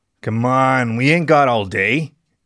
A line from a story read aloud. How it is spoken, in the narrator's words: he grunted